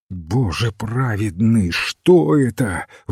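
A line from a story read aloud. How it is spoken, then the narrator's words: Breathless gasp. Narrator (Russian): выдохнул сэр Сесил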